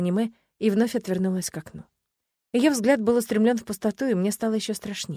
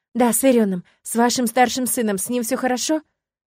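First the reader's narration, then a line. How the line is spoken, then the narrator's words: Rapid excited chatter. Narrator (Russian): затараторила взволнованно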